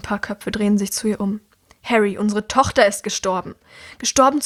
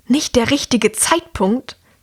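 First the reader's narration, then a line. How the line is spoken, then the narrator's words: Louder hiss, woman. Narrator (German): zischt die Frau jetzt lauter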